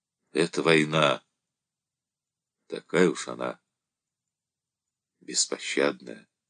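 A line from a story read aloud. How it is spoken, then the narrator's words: Quiet, after catching breath. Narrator (Russian): Перевел дух сказал тихо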